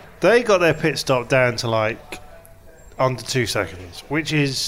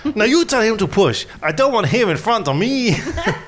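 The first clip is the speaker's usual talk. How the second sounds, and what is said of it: Imitates another person's voice. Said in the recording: “That was a Italian, let's be honest. ... I thought it was more Mexican.”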